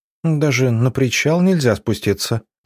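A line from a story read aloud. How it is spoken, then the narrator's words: Tired complaint. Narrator (Russian): усталым голосом пожаловалась Надя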